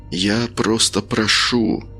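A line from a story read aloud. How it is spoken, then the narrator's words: Whispered. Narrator (Russian): прошептал Каин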